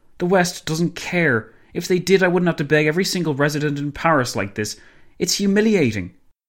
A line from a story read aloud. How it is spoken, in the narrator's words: Kerensky sighed